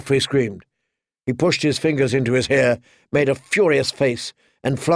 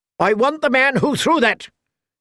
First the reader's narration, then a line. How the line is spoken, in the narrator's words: shouted